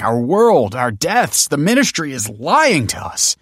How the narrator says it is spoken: begged Michael

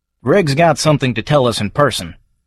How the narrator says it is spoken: says Brundle

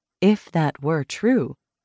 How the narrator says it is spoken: Caro said evenly

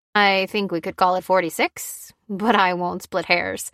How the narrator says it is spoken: he replied with a chuckle

